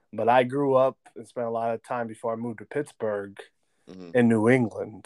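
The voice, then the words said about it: New York accent. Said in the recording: “Oh, that's why the accent come through. ... that's how all my family sounds. ... They're originally from New York.”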